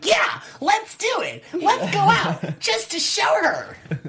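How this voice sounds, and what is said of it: Imitates another person's voice. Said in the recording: “That was my Kelly. ... You sounded great. ... You sounded really great. ... That was my Kelly impression.”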